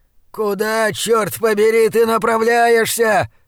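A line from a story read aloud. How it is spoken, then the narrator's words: Howling from behind. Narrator (Russian): взвыл позади меня Блад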